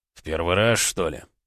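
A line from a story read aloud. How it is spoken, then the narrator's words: Displeased growl. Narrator (Russian): недовольно зарычал Слановский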